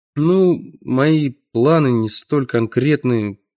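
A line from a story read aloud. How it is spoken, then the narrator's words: Mumbling. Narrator (Russian): промямлил я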